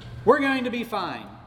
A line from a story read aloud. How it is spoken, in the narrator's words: she yelled